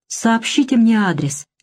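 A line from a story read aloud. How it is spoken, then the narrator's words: Almost timid request. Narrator (Russian): почти робко попросила Тиршенройт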